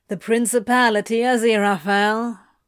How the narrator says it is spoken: he drawls

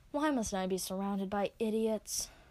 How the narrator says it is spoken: Scorion sighs

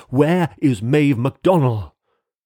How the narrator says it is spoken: shrieked

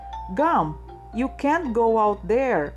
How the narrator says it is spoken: shouted

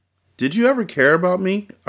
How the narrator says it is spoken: I cried, mad at myself for hoping she did

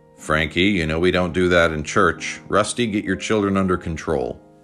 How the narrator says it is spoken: Pops from the pulpit sternly said to his granddaughter

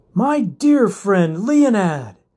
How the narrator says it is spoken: Quinn exclaimed

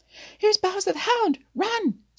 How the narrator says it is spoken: screamed Blacky the Crow

